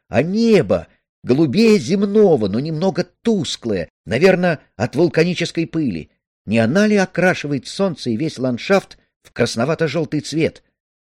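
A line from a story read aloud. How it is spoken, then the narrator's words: Sudden loud joyful singing. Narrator (Russian): Ганс вдруг громко запел, разнося радостную весть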